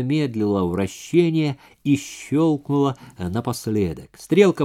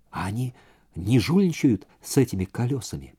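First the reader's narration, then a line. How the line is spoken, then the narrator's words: Soft whisper. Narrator (Russian): Сейра тихонько прошептала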